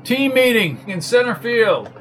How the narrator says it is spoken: yelled Jones

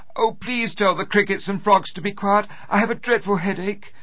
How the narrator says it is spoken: she cried out

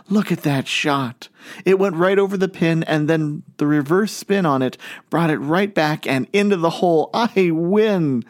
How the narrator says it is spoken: exclaimed

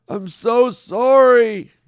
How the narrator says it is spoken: Norm wailed

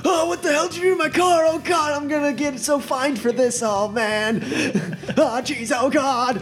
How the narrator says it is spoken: he's screaming

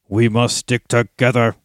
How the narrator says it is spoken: growled Ugluk

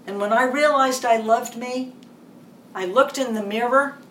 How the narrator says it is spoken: I cried

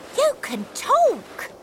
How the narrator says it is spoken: exclaimed Nanny

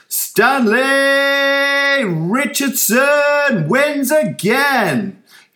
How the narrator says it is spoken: He yelled at the top of his lungs

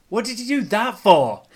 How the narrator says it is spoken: MC yelled at Gav

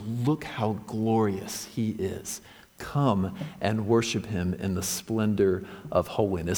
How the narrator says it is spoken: It whispers

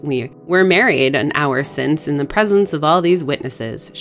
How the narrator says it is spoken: she giggled, and her color rose

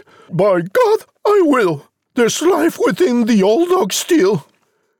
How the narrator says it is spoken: The mother cried

